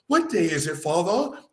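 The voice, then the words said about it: Put-on British accent. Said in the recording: “he would have a fucking British accent ... Why is our kid got a goddamn British accent?”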